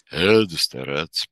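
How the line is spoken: Booming chorus of men. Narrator (Russian): прогудели молодцы

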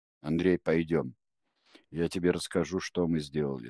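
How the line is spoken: Plain. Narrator (Russian): сказал он

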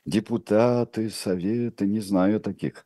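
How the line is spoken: Muttering. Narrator (Russian): пробормотал государь-император

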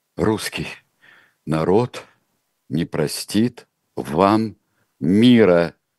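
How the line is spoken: Slow. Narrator (Russian): Медленно сказала Александра Федоровна

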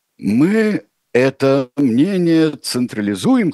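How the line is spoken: Wheezing, hoarse. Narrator (Russian): хрипел Ильич

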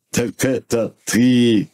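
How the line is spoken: Loud laughter. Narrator (Russian): захохотал Бородавкин

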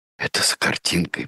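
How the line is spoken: Whisper. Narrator (Russian): прошептала Джулия

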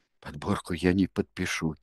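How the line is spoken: Quiet. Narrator (Russian): тихо сказал Паприкаки

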